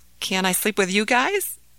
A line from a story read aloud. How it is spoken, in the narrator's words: asked Ahmed timidly